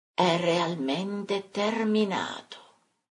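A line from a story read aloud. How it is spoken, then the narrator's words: Distant disembodied murmur. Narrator (Italian): venendo da lontananze infinite un mormore incorporeo dicesse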